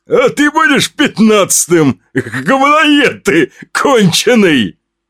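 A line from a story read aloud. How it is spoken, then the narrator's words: Laughing bearded man. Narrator (Russian): Хохотнул бородач и сказал мне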